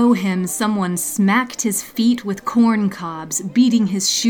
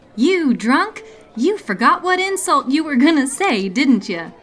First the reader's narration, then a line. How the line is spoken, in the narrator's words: Davy giggled